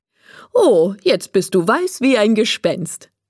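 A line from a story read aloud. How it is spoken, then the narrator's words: Laughing. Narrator (German): sagt Frau Mischki und lacht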